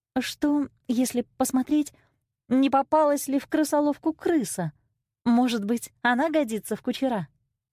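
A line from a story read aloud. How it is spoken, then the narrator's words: Timid question. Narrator (Russian): Золушка робко спросила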